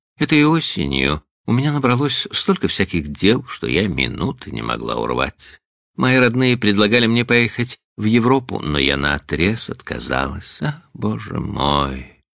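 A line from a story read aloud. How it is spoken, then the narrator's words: Sigh. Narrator (Russian): вздохнула она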